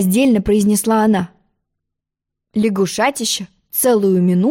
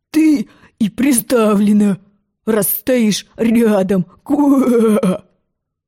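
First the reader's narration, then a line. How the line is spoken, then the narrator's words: Indistinct hoarse croak. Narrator (Russian): Он так хрипел, что Алиса не разобрала ни единого словечка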